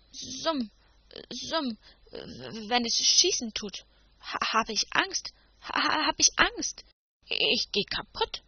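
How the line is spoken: Frightened knight stuttering. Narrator (German): stotterte der edle Ritter, als man ihn zur Rede stellte

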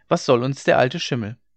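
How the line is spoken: Called out. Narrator (German): rief sie

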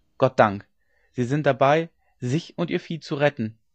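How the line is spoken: Inner voice crying out. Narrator (German): rief es in ihm

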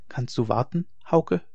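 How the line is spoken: Soft question. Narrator (German): frug sie leise

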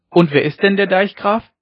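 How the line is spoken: Called out. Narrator (German): rief Ole Hensen wieder

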